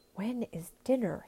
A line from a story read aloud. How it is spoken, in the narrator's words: someone whispered